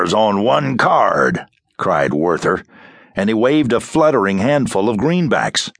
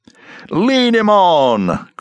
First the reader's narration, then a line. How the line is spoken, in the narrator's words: cried the ringmaster, but his voice was not quite so loud